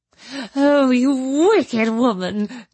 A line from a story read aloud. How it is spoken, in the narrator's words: cried Miss Bartlett